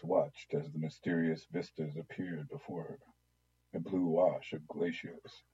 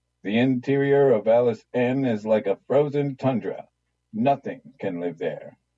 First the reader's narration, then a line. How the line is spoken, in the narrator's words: the specialist bellowed across the darkened room